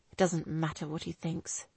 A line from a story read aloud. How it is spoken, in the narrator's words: he replied quietly